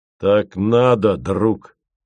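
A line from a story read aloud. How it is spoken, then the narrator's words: Weighty, firm. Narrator (Russian): сказал он весомо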